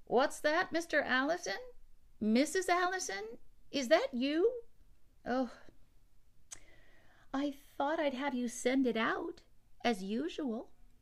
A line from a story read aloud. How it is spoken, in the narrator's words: Babcock said loudly